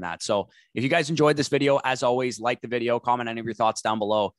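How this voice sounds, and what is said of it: Slightly scratchy voice. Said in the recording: “I was out at the bar last night, so my voice is a little scratchy.”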